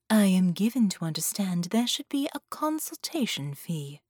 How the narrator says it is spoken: she said

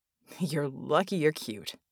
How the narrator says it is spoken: Red grunted

